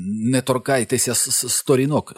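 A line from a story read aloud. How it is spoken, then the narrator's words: Sharp warning cry. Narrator (Ukrainian): скрикнув Білл, і в його проханні прозвучала така засторога, що всі підстрибнули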